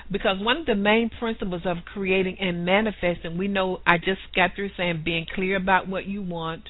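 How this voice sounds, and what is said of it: Southern US accent. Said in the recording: “excuse my southern accent”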